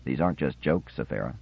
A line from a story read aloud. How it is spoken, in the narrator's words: Theremin said quietly